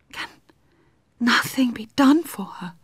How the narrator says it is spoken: said Madame Karenin in an agitated whisper

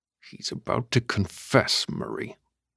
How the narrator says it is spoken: Davis finally said, speaking through gritted teeth

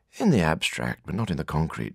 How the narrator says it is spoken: said Ursula

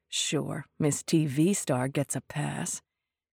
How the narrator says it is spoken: Lydia hissed to Donna

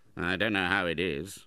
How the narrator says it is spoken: muttered Ralph

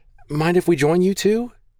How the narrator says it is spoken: Shoring up her nerve, Maggie squeaked

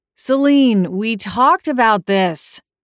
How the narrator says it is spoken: groaned, bleary-eyed

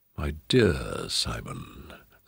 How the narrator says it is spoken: the Duke's voice was a silken purr

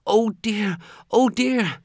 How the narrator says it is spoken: The little maid turned as white as snow, cried

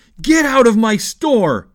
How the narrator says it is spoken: the man shouted at Yussi

